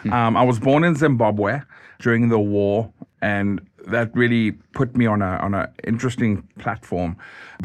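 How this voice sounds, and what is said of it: Zimbabwean / southern African accent. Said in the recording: “as you can hear, my wonderful accent,”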